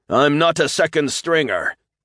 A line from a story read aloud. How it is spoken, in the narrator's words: the Bokor shouted